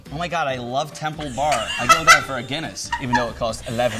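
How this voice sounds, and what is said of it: Put-on American tourist accent. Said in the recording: “American accent.”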